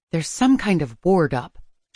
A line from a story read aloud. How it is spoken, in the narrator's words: she murmured